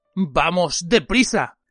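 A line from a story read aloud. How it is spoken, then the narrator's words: Growled. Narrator (Spanish): gruñó Moody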